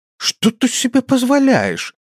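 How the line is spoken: Indignant huffing. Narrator (Russian): Тора возмущенно пыхтя

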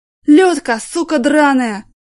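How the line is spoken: Sudden howl. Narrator (Russian): вдруг завопил Жаныч

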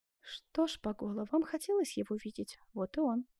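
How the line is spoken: Plain. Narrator (Russian): сказала Скацоне

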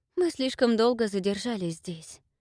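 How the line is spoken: Sighing. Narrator (Russian): вздохнула Рыска

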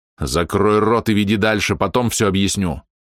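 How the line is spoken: Angry growl, barely restrained. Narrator (Russian): зарычал я на этого идиота, едва сдержавшись, чтобы не выглянуть из себя

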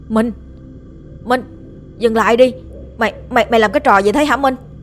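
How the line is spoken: Loud shout. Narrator (Vietnamese): Tiếng hét của Hùng khá là to

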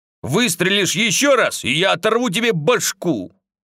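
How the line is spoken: Barking shout. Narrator (Russian): Артём рявкнул

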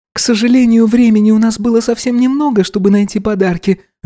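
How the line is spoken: Guilty sigh. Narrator (Russian): виновато вздохнула Изабелла

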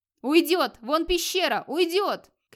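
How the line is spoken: Crowd shouting. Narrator (Russian): кричали вокруг Эрнельва

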